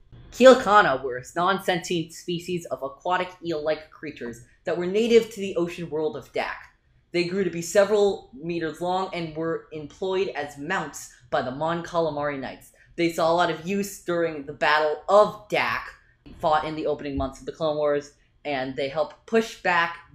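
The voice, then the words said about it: Imitates another person's voice. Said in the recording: “my best impersonation of Alex Damon”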